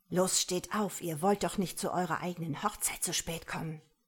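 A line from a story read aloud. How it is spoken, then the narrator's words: Hissing. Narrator (German): zischte er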